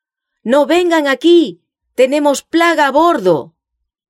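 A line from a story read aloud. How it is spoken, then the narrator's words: Men shouting from high yards. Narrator (Spanish): los hombres que estaban en las vergas más altas gritaron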